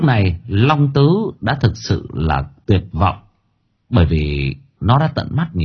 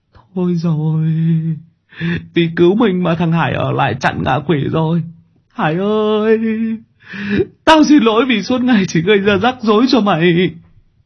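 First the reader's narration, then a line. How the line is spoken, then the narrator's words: Whimpering, near tears. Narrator (Vietnamese): Long Tứ mếu máo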